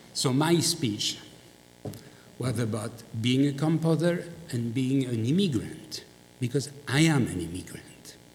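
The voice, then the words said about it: Strong foreign accent. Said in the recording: “I'm a foreigner. I have a strong, I have a very strong accent.”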